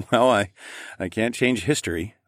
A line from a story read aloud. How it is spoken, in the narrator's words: I chuckled